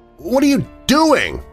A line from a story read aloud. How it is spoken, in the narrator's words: I almost shouted